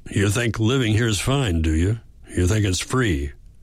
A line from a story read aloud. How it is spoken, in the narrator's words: he grunted after a moment